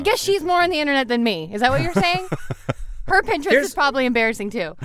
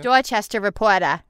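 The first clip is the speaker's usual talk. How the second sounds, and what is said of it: Put-on Boston accent. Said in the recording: “Can you say that in a Boston accent?”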